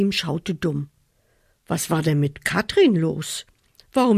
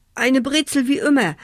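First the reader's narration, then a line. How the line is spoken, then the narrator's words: Stammering. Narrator (German): stotterte Achim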